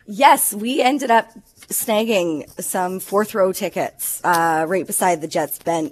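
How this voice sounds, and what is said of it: Sick, hoarse voice. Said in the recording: “mine is definitely because I'm sick as well. That's definitely why my voice is worse.”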